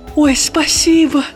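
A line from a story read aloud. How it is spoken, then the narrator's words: Little star's exclamation. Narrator (Russian): воскликнула звездочка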